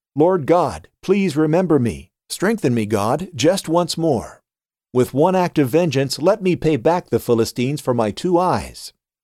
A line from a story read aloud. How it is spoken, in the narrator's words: He called out to the Lord